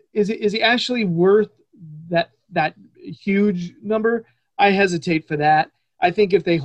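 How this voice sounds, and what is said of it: Usual voice. Nothing is said of it.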